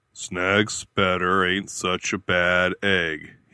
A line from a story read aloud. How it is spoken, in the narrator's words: he drawled